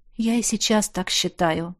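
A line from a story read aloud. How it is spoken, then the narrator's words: Sighing. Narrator (Russian): снова вздохнул Тизар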